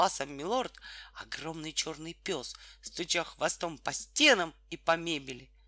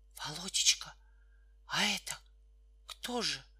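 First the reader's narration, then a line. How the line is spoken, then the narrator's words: Whispered question. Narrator (Russian): спросила шепотом мать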